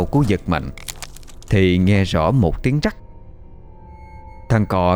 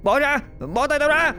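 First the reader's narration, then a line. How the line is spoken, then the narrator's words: Yelling. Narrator (Vietnamese): Cò gào lên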